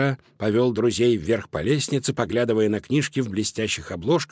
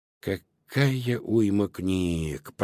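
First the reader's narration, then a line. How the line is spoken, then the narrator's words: Muttering. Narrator (Russian): пробормотал он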